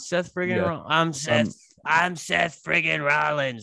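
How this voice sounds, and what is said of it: Poor imitation of a wrestler's voice. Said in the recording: “It might be my worst, it might be my worst wrestler impression, but that's how Seth Rollins talks.”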